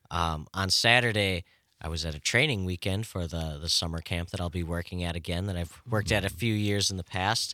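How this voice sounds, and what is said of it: Strained, hoarse voice. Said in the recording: “your voice is a little strained ... how bad my voice sounds this morning ... I guess I overused my voice ... A little too much yelling”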